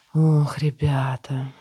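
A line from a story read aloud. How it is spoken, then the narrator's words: Sighing. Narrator (Russian): вздохнула Франческа и усмехнулась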